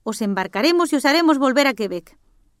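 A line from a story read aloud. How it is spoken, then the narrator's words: Chief shouting. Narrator (Spanish): gritó el jefe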